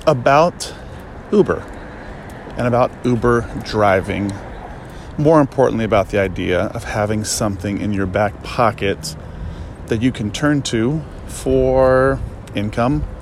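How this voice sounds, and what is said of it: Out of breath while walking. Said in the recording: “Whew, I'm out of breath already. I'm just walking.”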